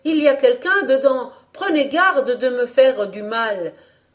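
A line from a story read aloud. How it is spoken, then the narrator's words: Cabin boy shouting. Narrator (French): criait le mousse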